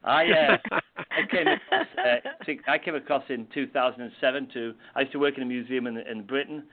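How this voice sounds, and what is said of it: Non-American accent. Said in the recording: “you can tell from my accent, I'm not originally from Virginia”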